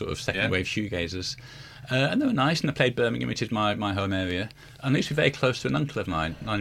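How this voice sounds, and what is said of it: Usual voice. Nothing is said of it.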